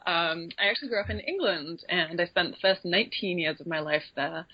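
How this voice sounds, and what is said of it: Slight English accent. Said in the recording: “my slightly odd accent ... I do detect a slight accent there”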